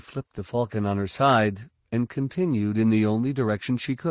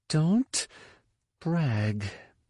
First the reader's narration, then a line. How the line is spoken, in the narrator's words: Leia spoke through clenched teeth